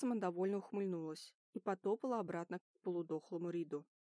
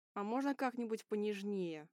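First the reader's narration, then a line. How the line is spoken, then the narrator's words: Hiss. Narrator (Russian): прошипел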